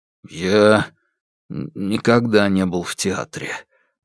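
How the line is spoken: Confused mutter. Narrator (Russian): пробормотал Алексей, едва понимая, о чем они говорят

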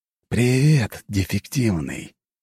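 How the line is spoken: Hissing with strange smile. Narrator (Russian): прошипел Игнатий с какой-то странной улыбкой

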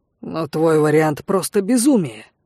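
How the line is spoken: Worried growl. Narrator (Russian): обеспокоенно рыкнул Лок

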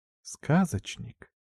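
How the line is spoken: Short whisper. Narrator (Russian): прошептав короткое

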